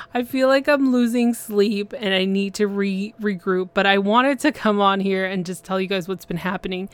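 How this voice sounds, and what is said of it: Hoarse, fading voice. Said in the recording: “I feel like I'm losing my voice”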